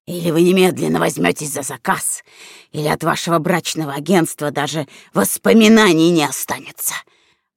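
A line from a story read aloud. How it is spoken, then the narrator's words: Offended hiss. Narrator (Russian): прошипел уязвленный клиент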